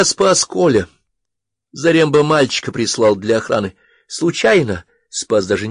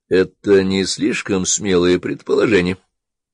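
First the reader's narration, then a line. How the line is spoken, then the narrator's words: Gentle question. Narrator (Russian): мягко спросил Георгий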